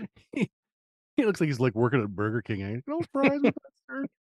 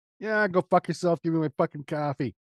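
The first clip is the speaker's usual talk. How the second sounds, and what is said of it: Put-on Brooklyn accent. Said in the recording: “You went to all Brooklyn there. ... I'm really great with the fucking accents.”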